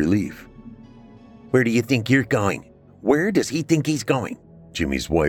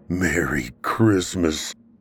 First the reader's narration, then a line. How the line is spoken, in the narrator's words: Mike groaned